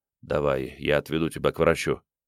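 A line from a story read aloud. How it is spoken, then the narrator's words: Quiet. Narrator (Russian): Крейг тихо сказал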